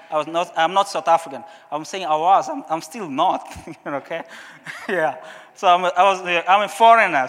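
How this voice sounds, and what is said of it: Portuguese-speaker's accent in English. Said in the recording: “I didn't speak English very well. I think even today you can still see my accent still coming. I'm Portuguese speaking.”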